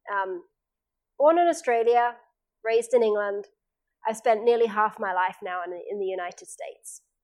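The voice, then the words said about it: Australian or English accent. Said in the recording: “the accent comes from when you're younger, so that's why it's there”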